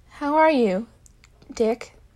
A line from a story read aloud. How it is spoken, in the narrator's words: Tim asked softly